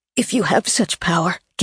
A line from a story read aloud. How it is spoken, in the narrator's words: Gabe whispered, still trying not to move